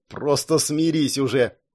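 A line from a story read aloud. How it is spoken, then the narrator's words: Snorting. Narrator (Russian): фыркнул Шон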